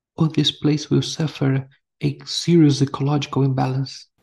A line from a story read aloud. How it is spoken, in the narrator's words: whispered in a tone of urgency